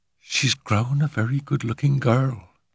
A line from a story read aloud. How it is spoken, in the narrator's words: she murmured